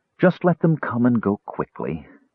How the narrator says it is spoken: she said softly to herself

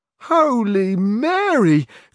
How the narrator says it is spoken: cried Sancho

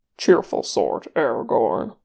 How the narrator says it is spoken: Gimli muttered

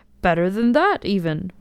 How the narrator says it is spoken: was the laughing answer

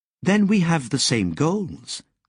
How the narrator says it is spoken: Lobsang said

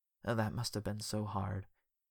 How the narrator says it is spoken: he said quietly

